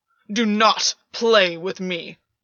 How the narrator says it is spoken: Gwyn snarled

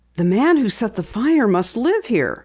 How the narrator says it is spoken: Penny exclaimed

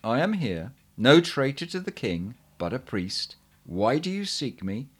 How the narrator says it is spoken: in a clear voice answered

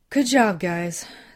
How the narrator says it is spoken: said between breaths

